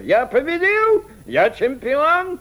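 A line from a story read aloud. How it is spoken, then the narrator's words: Triumphant shout. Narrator (Russian): закричал мсье Блао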